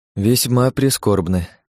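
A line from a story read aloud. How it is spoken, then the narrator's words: Sighing. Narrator (Russian): вздохнул я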